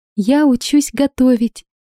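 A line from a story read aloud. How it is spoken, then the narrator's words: Joyful admission. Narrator (Russian): радостно призналась Виола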